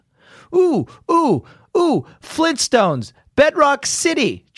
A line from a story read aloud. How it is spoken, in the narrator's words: Jeff blurted out